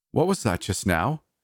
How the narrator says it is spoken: She asked sharply

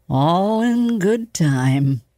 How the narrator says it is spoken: Professor Garrison give a chuckle, mumble to no one in particular

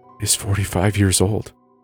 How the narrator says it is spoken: I whispered

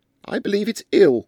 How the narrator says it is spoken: said Louisa Mebbin loudly in Hindustani for the benefit of the village headman

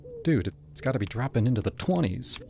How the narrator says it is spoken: I muttered

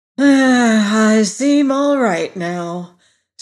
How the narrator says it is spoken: said the queer animal with a sigh

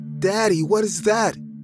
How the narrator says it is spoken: Max asked in a shaky voice

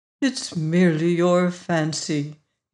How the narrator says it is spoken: he said soothingly

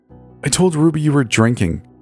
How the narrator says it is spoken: Fallon snapped

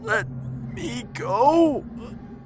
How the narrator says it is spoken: I gasped

